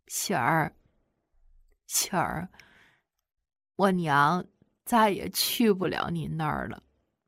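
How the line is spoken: Sobbing, trembling voice. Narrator (Chinese): 突然哇的一声哭了起来，哆哆嗦嗦地和我说

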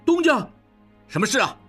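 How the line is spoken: Calling out. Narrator (Chinese): 小顺 叫道

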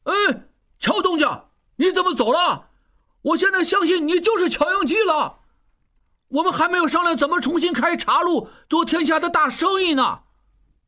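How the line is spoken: Shouting while running. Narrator (Chinese): 拉斯普汀一边喊着

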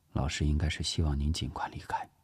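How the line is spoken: Low voice. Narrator (Chinese): 聂西低声说

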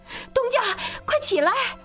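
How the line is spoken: Shouting from outside. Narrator (Chinese): 喜凤在外面喊

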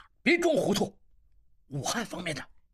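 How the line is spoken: Stern interruption. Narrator (Chinese): 应济厉声打断他

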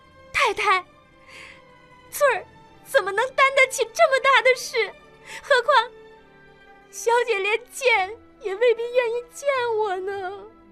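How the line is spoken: Shouting. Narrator (Chinese): 翠儿大叫

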